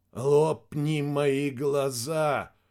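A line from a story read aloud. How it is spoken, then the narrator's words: Hoarse. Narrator (Russian): хрипло проговорил лейтенант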